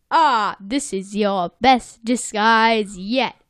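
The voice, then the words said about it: Weird put-on accent. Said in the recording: “I don't know why I did that weird accent”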